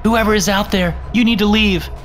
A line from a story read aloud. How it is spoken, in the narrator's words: I called out